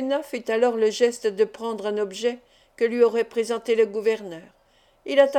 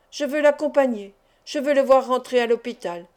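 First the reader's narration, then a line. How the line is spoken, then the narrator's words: Conflicted exclamation. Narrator (French): s'écria le gouverneur, qui luttait contre lui-même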